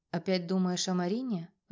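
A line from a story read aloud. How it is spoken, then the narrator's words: Sighing. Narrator (Russian): вздохнул он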